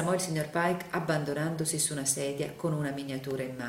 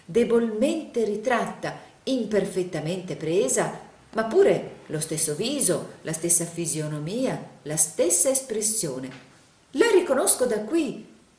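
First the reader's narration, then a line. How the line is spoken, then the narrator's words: Enthusiastic exclamation. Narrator (Italian): esclamò il signor Plug in un trasporto d'entusiasmo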